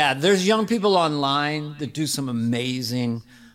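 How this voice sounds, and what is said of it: Usual voice. Nothing is said of it.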